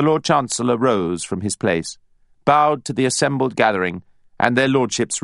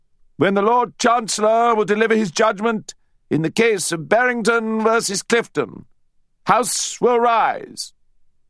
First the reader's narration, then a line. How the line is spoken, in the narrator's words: he bellowed